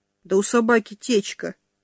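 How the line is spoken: Sighing announcement. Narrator (Russian): вновь вздохнул и сообщил

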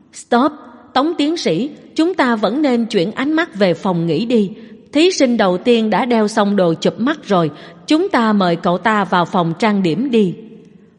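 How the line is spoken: Sighing, resigned. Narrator (Vietnamese): Tống Ngôn Noãn yên lặng thở dài một hơi, bất đắc dĩ nói

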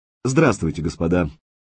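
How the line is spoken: Confident, crooked-mouthed young man. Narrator (Russian): уверенным тоном начал парень с перекошенным ртом

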